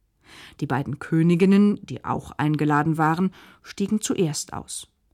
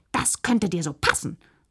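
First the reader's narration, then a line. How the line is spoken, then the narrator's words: Hissing. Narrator (German): fauchte da Josephina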